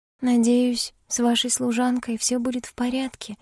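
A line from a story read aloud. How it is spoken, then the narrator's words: Quiet. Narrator (Russian): тихо сказала Сесилия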